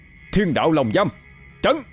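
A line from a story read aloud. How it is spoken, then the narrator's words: Loud shout. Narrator (Vietnamese): Thái Sơn quát lớn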